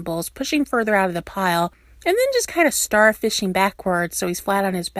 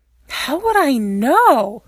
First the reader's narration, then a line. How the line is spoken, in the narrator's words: Styles scoffs